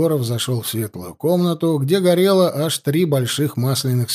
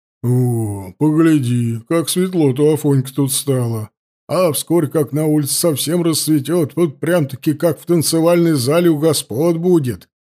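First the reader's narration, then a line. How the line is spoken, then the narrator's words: Deep bass voice. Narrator (Russian): пробасил Кудряш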